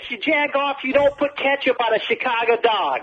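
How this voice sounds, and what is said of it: Put-on Chicago accent. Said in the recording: “hey, you Jagoff in a Chicago accent? ... Nicely done.”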